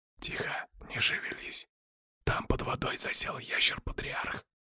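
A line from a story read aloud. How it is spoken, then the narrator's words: Whispered into ear. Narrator (Russian): прошептал я в аккуратное ушко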